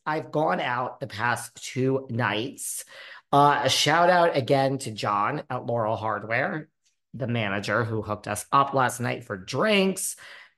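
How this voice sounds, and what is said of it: Hoarse, fading voice. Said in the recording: “I'm still losing my voice... But I'm losing my voice... My voice is gone. Allergies, guys.”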